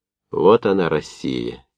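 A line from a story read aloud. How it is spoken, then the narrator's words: Quiet and serious. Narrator (Russian): тихо и серьезно сказал Новиков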